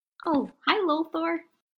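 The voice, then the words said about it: Nervous, voice an octave higher. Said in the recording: “My voice went up an octave because I got very nervous.”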